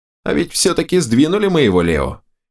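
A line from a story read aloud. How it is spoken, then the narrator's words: Amused grunt. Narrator (Russian): хмыкнул Берс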